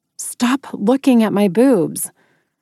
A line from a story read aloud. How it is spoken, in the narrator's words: I said more sharply than I wanted to